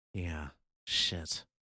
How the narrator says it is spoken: Grace muttered

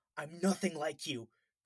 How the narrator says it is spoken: Colin screamed at the villain

